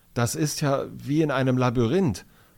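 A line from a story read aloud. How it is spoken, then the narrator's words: Fearful voice. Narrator (German): sagt Finn mit ängstlicher Stimme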